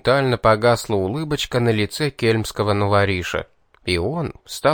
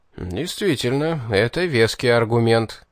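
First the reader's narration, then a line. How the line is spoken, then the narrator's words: Chuckling agreement. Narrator (Russian): хохотнув, согласился Тьерфос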